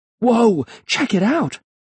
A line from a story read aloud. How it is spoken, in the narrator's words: I cried